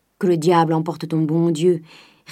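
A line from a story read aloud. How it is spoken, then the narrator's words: Grumbled retort. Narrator (French): répliqua Grandet en grommelant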